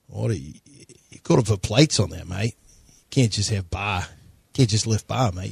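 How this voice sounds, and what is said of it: Steven Adams impression, Kiwi accent. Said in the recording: “does a great Stephen Adams impression”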